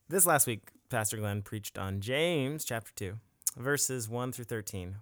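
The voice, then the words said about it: Announcer-style radio voice. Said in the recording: “Jarret asked me to get a radio voice.”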